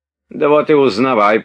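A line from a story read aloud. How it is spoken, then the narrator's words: Shouting landowner. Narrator (Russian): прокричал помещик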